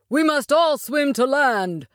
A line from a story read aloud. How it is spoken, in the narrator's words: shouted